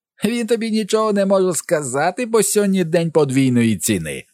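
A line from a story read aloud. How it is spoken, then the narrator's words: Shrill screech. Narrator (Ukrainian): верещить містер Жовта картка, котрий тепер став чорною карткою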